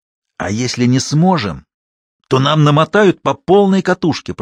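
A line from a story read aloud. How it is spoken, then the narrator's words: Hissed reply. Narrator (Russian): прошипел в ответ Кучеренков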